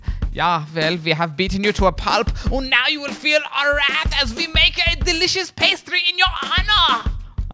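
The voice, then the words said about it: Poorly done put-on accent. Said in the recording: “I'm not good at that accent.”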